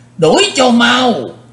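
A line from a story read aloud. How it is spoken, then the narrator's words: Strange old man's shout. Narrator (Vietnamese): tiếng quát ... quái lão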